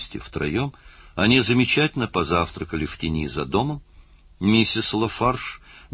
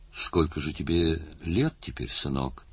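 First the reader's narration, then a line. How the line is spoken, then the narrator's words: Quiet question. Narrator (Russian): тихонько спросил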